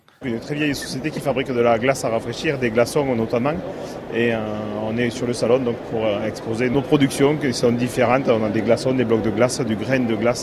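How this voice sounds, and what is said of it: Southwestern French Narbonne accent. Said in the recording (French): “puisqu'on est dans le sud-ouest ... allons du côté de Narbonne ... Parce qu'avec un accent, on peut vendre des choses ... le Narbonnais”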